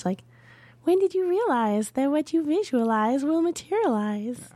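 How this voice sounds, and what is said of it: Higher-pitched sing-song imitation. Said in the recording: “sing-songy ... Only higher pitch ... That was a pretty good imitation.”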